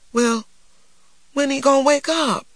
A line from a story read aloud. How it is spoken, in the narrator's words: cried Christopher John, the tears escaping down his plump cheeks